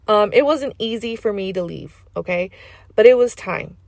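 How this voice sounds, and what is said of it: Loud Valley Girl accent. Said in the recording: “I am a loud, proud valley girl. I like my accent ... I don't care if I come off very valley, very LA”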